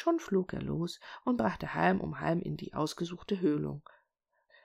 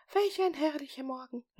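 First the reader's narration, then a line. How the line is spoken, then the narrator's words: Exclaiming. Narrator (German): rief er aus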